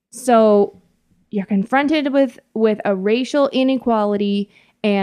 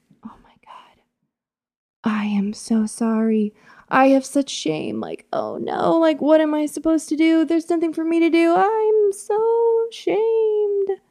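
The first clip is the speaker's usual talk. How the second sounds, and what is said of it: Impression of an ashamed, flustered person. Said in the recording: “That was a good impression of a white shamed person.”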